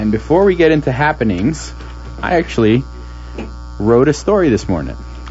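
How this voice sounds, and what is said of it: Usual voice. Nothing is said of it.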